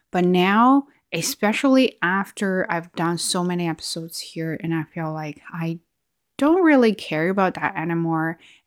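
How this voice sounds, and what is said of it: Chinese-accented English. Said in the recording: “I used to have a Chinese accent ... people talk about my accent”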